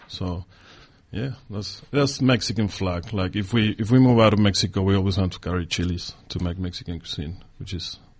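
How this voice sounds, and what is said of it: Foreign accent in English. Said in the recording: “I'm detecting a really lovely exotic accent there”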